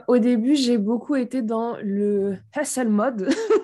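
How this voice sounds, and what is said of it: Slight North African Arabic accent. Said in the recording (French): “T'as dit hustle mode avec un petit accent euh, d'Afrique du Nord, tu vois, un petit accent arabe derrière.”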